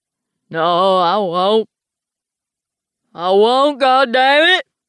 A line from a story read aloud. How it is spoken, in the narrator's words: roars